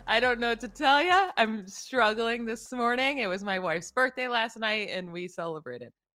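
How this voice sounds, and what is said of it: Unusually deep, rough voice. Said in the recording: “I'm a little hungover... voice sounds like a man... it's very deep”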